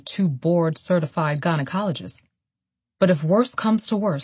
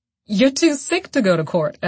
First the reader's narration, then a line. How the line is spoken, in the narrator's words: Evelyn laughed